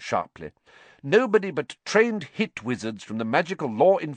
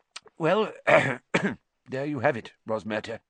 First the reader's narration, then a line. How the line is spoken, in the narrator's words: said Fudge thickly